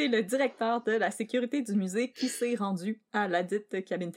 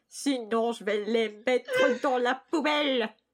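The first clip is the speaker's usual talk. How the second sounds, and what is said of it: Put-on nasal European accent. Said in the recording (French): “un homme à la voix nasillarde et à l'accent européen ... Comment ça prend un accent européen?”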